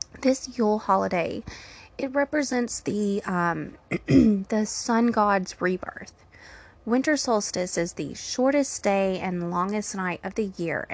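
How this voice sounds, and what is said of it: Strained, fading voice. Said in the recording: “I feel like I'm losing my voice”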